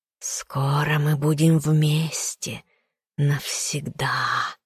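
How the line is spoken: Pleased hiss. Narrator (Russian): Довольно зашипела паучиха

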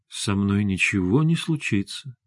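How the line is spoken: Soft. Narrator (Russian): мягко сказал Максим

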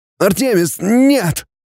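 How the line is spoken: Hoarse, doubled over. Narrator (Russian): Хрипит он, скорчившись

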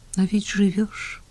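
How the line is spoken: Sad remark. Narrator (Russian): грустно заметила Таня

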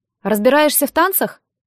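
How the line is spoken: Plain. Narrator (Russian): спросила

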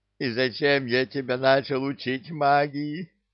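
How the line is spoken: Groaning little imp. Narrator (Russian): застонал бесенок

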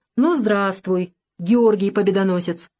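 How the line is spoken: Deep bass doctor. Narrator (Russian): пробасил доктор

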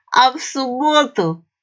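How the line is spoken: Drunken giggle. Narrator (Russian): пьяненько хихикнул старший мичман

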